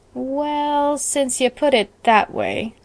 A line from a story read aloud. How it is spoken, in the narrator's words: drawled Judson with a grin